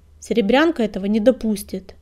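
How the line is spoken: Self-assured grunt. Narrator (Russian): самоуверенно хмыкнул Крутобок

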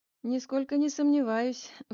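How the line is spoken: Sigh. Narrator (Russian): вздохнул Мельников

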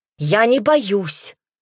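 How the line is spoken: Angry repetition. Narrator (Russian): злобно повторила она

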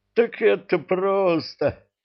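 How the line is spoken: Laughing. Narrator (Russian): засмеялся Кривозуб

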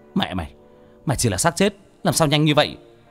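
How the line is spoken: Panicked shout. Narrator (Vietnamese): Sáu Chột thấy cái xác thối cứ bám lên mình, quát lên

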